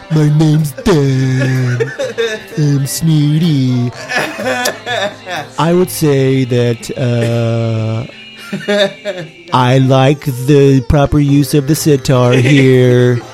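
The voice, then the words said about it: Snooty imitation of another person's voice. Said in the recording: “get Dan from the alternate dimension in here ... I won't make you sound like an idiot ... This is a graceful, honest interpretation of you”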